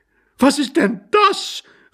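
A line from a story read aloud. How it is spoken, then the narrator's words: Horrified woman's cry. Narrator (German): rief entsetzt seine Gattin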